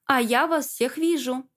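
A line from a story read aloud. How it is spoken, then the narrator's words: Loud. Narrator (Russian): сказала громко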